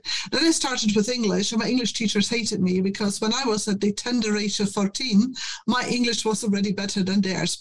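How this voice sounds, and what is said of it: Scottish German accent. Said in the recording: “the accent is Scottish German”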